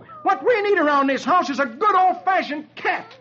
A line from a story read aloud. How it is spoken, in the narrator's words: Dagwood roars